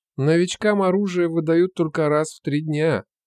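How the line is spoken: Dejected voice. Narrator (Russian): сказал он поникшим голосом

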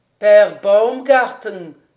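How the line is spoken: Shouting. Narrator (French): criait le professeur Speck

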